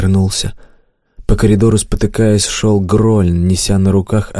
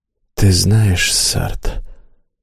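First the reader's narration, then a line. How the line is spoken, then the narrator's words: Hoarse. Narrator (Russian): хрипло сказал Грольн льняной голос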